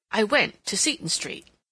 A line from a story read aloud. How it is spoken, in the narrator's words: Aunt Cecilia continued firmly